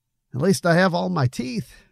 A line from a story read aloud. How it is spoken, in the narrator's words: he added with a forced laugh